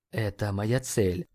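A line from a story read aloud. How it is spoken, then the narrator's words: Whisper. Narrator (Russian): прошептал Нейт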